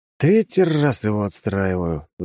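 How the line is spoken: Sighing. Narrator (Russian): вздохнул я

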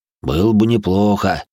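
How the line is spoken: Deep bass voice. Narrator (Russian): пробасил Афро

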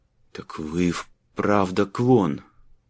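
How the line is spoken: Breathless awe. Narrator (Russian): выдохнул Табор

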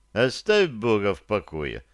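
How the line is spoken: Calm interruption. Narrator (Russian): спокойно прервал Добко Пугало

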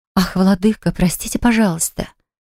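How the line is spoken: Breathy intimate exhale. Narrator (Russian): выдохнула буквально в губы

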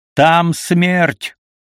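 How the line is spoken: Shouting. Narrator (Russian): крикнул я ему

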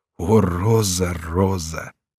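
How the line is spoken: Crying out. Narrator (Russian): Корнелий вскричал

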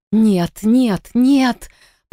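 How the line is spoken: Hoarse, numb-tongued croak. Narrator (Russian): прохрипела я, с трудом шевеля онемевшим языком

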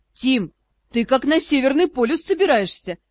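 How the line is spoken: Amused snort. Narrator (Russian): хмыкнул Ас

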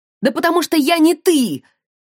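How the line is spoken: Shout. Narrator (Russian): крикнула

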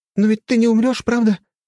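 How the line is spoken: Frightened question. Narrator (Russian): испуганно спрашивает она

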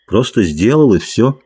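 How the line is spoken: Weary answer. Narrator (Russian): ответил Джордж устало

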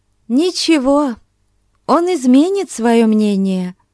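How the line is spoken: Cheerful. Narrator (Russian): весело проговорила Консуэло

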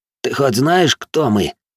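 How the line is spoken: Hissed through gritted teeth. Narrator (Russian): сквозь зубы процедил один из парочки, оставшихся на ногах

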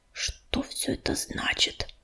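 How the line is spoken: Muttering. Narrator (Russian): пробормотал он

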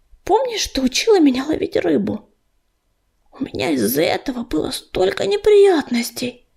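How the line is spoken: Whispered. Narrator (Russian): прошептала Листочка

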